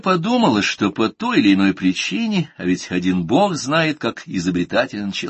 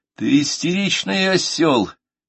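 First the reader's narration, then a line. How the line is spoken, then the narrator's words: Impatient shout. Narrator (Russian): нетерпеливо крикнул я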